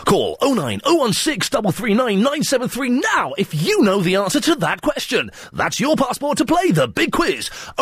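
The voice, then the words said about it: Announcer voiceover voice. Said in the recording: “my voiceover voice”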